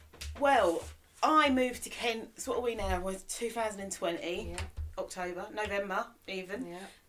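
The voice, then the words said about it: South East London accent. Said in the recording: “from South East London, hence the accent.”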